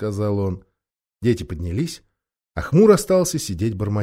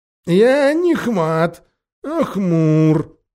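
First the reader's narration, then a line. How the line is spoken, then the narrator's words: Unsteady objecting voice. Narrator (Russian): нетвердым голосом возразил бродякль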